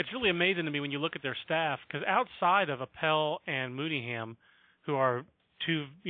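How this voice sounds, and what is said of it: Usual voice. Nothing is said of it.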